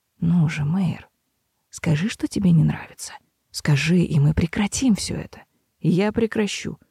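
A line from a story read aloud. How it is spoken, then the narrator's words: Feverish whisper. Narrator (Russian): лихорадочно шептал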